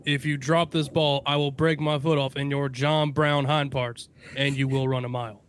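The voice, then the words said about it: Imitates another person's voice. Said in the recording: “that great impression,”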